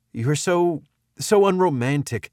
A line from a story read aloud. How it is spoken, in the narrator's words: she sputtered